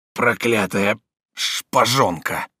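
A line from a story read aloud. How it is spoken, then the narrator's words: Breathless dying grumble. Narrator (Russian): проворчал он, переводя последнее дыхание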